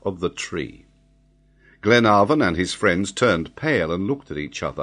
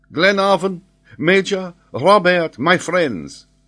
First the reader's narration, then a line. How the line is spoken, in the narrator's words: exclaimed Paganel